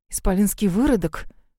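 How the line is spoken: Hissing, not lowering voices. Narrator (Russian): Шипели крестьяне, даже не трудясь говорить тише

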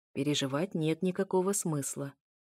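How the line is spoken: Quiet. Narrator (Russian): тихо проговорил султан

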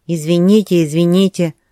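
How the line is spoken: Little man grumbling. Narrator (Russian): ворчал мужичок

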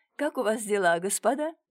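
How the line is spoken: Mocking question. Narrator (Russian): насмешливо спросила Илона

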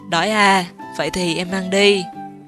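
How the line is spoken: Gentle, smiling. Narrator (Vietnamese): Lục Sâm mỉm cười rồi nhẹ nhàng nói

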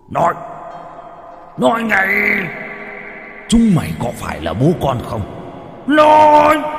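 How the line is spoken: Screaming. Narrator (Vietnamese): Nó gào lên

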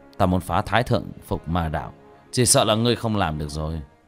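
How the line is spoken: Muttering. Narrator (Vietnamese): Tiểu Thất lẩm bẩm

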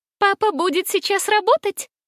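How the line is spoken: Thin innocent child's voice. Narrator (Russian): невинном вопросе, произнесенным тонким голоском

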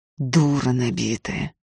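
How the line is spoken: Muttering. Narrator (Russian): пробормотал Ефим

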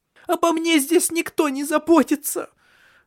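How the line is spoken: Sobbing. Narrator (Russian): зарыдала она

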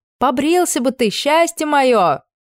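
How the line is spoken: Loud, pointed remark. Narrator (Russian): бросила на ходу так громко, чтобы кое-кто внизу услышал

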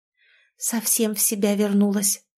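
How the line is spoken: Quiet female voice. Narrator (Russian): тихо произнесла подруга

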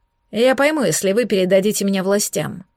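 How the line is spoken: Lifeless flat tone. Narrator (Russian): безжизненным тоном отозвался Дилан

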